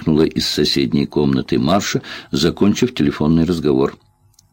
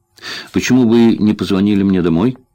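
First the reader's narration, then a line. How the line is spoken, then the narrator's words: Irritated question. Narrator (Russian): раздраженно спросила Тереза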